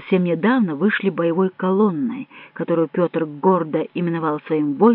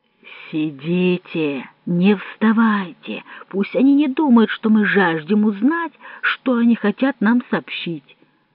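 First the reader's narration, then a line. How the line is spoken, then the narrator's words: Plain. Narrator (Russian): сказал капитан Добре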